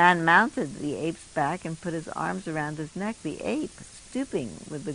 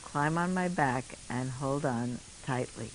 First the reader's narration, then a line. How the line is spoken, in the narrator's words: He said gently